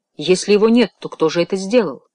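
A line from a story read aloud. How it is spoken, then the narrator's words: Sharp question. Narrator (Russian): Фламбо резко спросил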